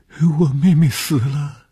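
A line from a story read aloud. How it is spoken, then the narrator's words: Pitiful girl crying. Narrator (Chinese): 这是一个可怜的女孩 见着红鱼便哭起来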